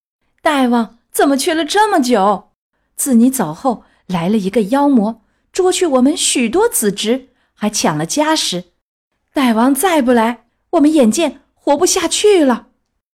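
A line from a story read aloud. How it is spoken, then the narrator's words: Crowd of monkeys crying out. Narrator (Chinese): 千千万万猴，叫道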